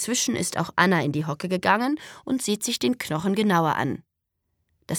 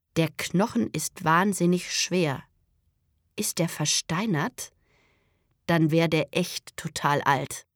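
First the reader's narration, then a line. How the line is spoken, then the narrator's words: Slow speech. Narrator (German): sagt langsam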